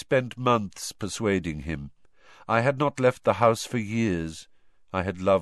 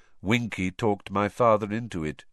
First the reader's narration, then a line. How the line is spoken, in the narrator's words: said Crouch, still in the same monotonous voice